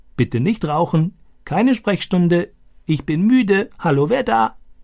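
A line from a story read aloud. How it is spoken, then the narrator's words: Croaking imitation. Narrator (German): Stani krächzte diese Sätze wie Boga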